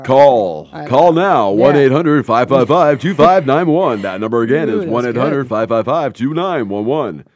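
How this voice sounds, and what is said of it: Sexy radio announcer voice. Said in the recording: “That was sexy. Sexy radio voice.”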